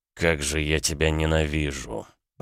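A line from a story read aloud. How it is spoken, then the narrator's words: Groaning. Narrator (Russian): простонал Александр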